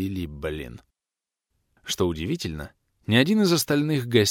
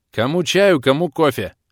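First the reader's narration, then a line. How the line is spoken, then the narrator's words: Loud shout. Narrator (Russian): громко крикнул я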